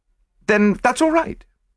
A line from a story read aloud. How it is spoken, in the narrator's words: I said hastily